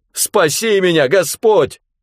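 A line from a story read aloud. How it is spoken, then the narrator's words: Shout. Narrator (Russian): закричал он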